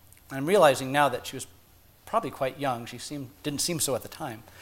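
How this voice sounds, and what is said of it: Usual voice. Nothing is said of it.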